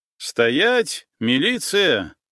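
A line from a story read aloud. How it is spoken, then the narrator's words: Shouting from behind. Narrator (Russian): прокричали сзади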